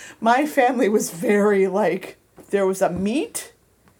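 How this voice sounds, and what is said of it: Usual voice. Nothing is said of it.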